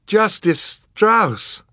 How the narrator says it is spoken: Violet cried

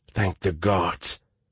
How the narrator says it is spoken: whispered

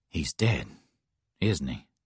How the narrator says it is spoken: Jake asked Ozzie softly

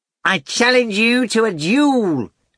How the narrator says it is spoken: bellowed the cat

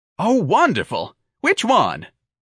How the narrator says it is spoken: the man cried enthusiastically

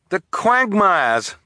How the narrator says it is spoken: Klaus cried

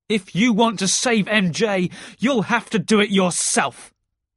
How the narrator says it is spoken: Harry shouted

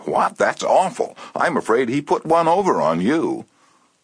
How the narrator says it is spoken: she exclaimed with a note of triumph

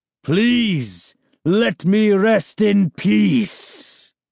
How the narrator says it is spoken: a booming voice rang out

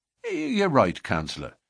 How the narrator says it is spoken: said McMurdo meekly

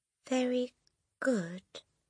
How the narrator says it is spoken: the boy mumbled

